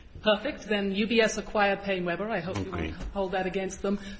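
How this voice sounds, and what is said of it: Mixed English-American accent. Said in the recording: “the English think I speak like an American, the Americans think I speak like an English, so I'm sort of stuck somewhere in the middle of the Atlantic Ocean on my accent ... it sounds more to me like Australia, New Zealand ... South Africa”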